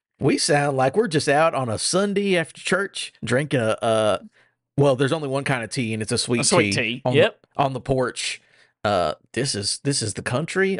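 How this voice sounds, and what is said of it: Put-on Southern US accent. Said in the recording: “Go down south ... I hate that accent ... That is the end of Paula Deen”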